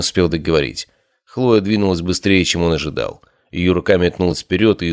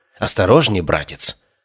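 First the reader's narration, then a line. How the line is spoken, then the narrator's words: Angry hiss. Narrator (Russian): прошипела Хлоя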